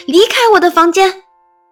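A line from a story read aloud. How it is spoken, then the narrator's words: Shouting. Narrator (Chinese): 大喊大叫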